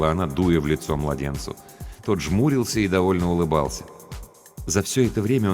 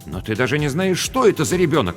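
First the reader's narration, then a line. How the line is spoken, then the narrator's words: Exclaiming. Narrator (Russian): воскликнул Рубен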